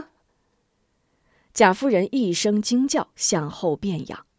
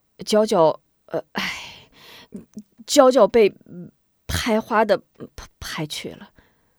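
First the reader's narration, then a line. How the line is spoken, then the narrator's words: Awkward stammering. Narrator (Chinese): 边豪甚觉为难，却又无法掩饰，结结巴巴道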